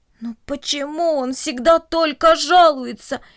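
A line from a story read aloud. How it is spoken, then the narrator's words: Groaning plants. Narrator (Russian): простонали растения кукурузы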